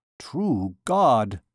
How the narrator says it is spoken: muttered Phoebus

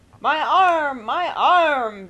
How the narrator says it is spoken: bellowed Mr

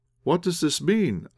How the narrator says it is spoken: I exclaimed

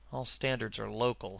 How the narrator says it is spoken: he murmured

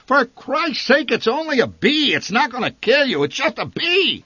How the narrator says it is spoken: The old man shouted above her shrieks

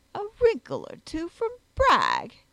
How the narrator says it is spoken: exclaimed his lordship, rolling in his chair with laughter

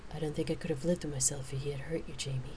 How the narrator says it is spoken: she said softly

